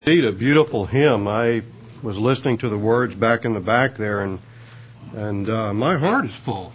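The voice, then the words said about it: Unwell, strained-sounding voice. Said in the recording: “Please forgive my voice this morning. I've been fighting something all week”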